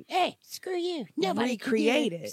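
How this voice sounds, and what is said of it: Cartoon character voice. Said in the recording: “South Park voice”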